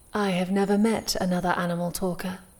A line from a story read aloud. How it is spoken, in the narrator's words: Sitara said